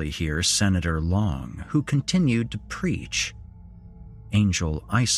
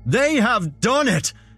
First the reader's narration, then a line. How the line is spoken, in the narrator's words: Senator Long screamed into the microphone